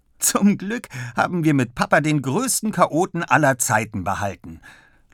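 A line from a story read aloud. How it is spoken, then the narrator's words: Laughing. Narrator (German): lacht Ole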